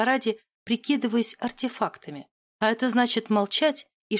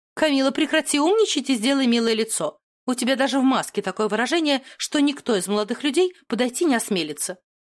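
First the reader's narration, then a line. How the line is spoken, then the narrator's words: Sharp scolding. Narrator (Russian): прикрикнула на нее Марджери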